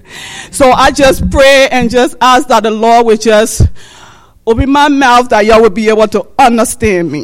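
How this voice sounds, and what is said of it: Liberian West African accent. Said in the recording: “the absent from Liberia, West Africa ... I will never lose this accent”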